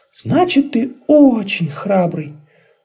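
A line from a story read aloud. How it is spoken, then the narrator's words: Exclaiming, small fluffy creature. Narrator (Russian): воскликнул пуховый комочек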